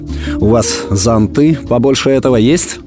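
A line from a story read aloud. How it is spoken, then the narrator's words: Stern question. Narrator (Russian): спросил он строго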